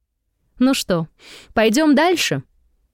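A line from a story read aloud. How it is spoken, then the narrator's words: Cheerful question. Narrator (Russian): бодро спрашиваю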